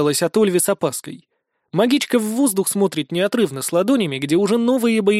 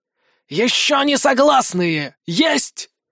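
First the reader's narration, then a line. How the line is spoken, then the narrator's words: Shrill hissing squeal. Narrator (Russian): Провизжала змеиным шелестом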